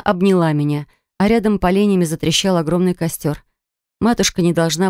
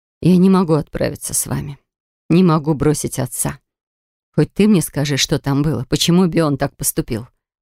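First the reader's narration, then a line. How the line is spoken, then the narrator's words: Sighing reply. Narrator (Russian): Я вздохнула в ответ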